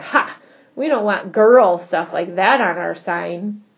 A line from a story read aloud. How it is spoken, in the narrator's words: Scott snorted